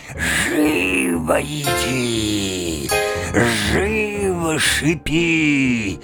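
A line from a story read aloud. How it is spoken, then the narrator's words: Hissing through clenched teeth. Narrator (Russian): сжимая острые зубы своей широкой пасти, она зашипела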